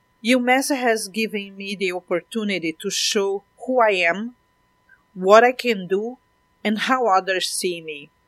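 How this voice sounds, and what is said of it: Speaks with a non-native accent. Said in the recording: “I am not my accent.”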